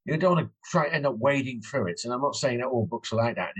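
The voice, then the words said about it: British English accent. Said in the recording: “your English accent ... it's British ... British accent”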